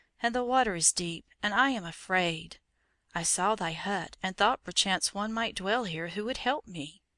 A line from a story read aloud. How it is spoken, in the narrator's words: said the child in his soft, clear voice